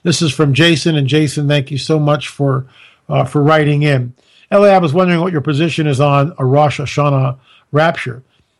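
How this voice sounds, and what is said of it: Strained, worn-out voice. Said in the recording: “My voice is giving out”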